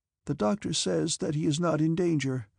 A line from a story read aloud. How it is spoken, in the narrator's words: said the Countess, but as she spoke she raised her eyes with a sigh